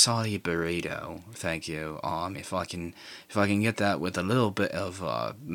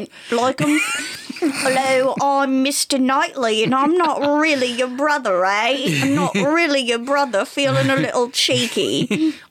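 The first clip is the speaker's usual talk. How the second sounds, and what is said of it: Put-on British accent. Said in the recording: “now I'm just a character from Emma. Do you hear my accent?”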